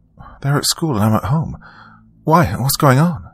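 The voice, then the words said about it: Rushed, trembling voice. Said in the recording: “My voice was rushed and trembling.”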